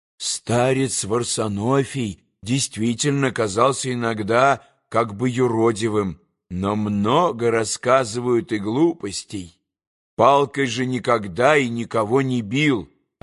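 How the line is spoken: Plain. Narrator (Russian): ответил монашек

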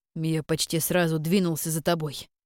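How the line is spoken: Growling. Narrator (Russian): прорычал ему Кирьян

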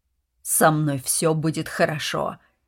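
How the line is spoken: Insistent with slight growl. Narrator (Russian): настаивал он с ноткой рычания в голосе

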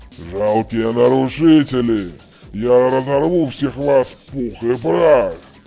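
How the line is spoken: Growling earth spirit. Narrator (Russian): Зарычал дух земли Оз

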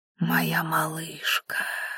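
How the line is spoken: Barely audible singsong. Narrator (Russian): едва слышно пропел Викон

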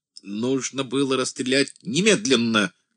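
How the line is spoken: Shouted. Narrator (Russian): крикнул Троцкий

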